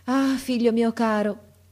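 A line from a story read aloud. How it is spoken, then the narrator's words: Sighing reply. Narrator (Italian): rispondeva Etra sospirando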